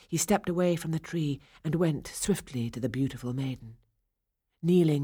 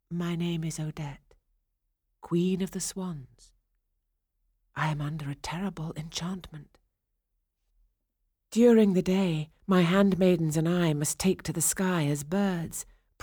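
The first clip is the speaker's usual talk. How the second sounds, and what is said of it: Gentle soft voice. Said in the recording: “in a gentle voice,”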